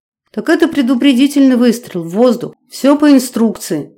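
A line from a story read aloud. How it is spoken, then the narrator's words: Embarrassed babble. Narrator (Russian): залепетал он сконфуженно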